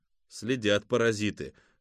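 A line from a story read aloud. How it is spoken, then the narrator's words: Snorting. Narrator (Russian): хмыкнул Кузьма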